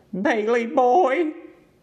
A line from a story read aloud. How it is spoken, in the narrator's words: called in a tragic voice